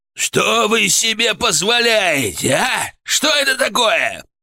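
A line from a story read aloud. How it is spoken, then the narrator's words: Furious yelling. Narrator (Russian): орал председатель КГБ Украины, забыв, что находится в кабинете своего непосредственного руководителя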